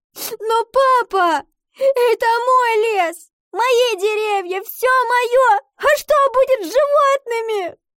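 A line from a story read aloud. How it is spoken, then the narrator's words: Sobbing. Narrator (Russian): рыдала Ива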